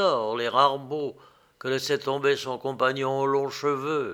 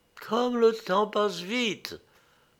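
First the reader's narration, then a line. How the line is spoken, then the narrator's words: Sad. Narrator (French): dit-elle tristement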